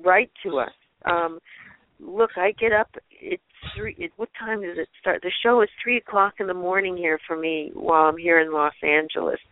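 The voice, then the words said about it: Tired voice, losing its strength. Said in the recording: “I'm losing my voice because I'm getting tired”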